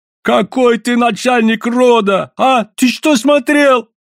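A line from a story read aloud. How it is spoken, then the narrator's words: Yelling. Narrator (Russian): орал Савоська, переходя на русский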